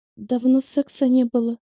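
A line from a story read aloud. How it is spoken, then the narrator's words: Faltering babble. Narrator (Russian): пролепетала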